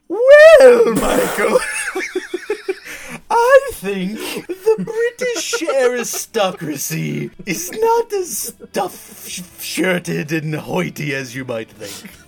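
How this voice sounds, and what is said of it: Put-on British accent. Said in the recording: “And in a British accent?”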